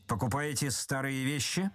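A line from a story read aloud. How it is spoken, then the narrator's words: Menacing question. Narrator (Russian): спросил Остап грозно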